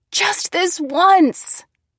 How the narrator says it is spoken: I screamed

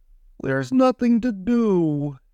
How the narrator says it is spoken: groaned

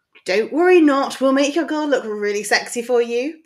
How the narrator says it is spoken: Pansy yelled back

